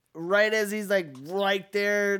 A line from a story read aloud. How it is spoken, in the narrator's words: they yell